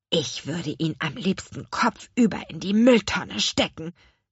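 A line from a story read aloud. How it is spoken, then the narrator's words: Indignant hiss. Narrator (German): zischte Louis empört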